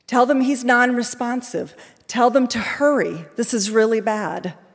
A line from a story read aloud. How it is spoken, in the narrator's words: the adults were shouting at him